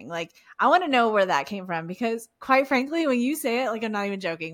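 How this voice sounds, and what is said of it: Texan Southern Valley girl accent. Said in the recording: “I have a weird accent that like I'm a Texan. I'm from Houston, but like I have this weird like Southern Valley girl mix.”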